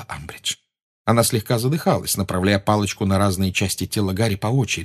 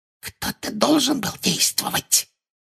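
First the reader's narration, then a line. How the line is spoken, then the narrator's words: Whispered. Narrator (Russian): прошептала Амбридж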